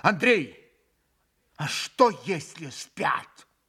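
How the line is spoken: Sudden anxious exclamation. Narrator (Russian): Вдруг Митя в страшном беспокойстве воскликнул

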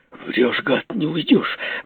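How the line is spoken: Muttering. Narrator (Russian): бормотал я

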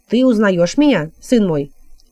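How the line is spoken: Plain. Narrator (Russian): спросил отшельник

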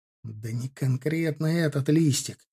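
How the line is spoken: Hissing. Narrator (Russian): тон зашипел

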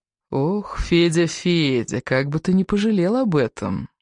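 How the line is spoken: Falsely tender stranger's voice. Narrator (Russian): притворно ласково произнес незнакомец

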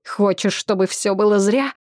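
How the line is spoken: Hiss. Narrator (Russian): прошипел

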